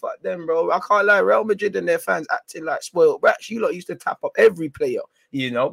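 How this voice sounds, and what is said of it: Croaky voice. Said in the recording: “My voice is a bit croaky.”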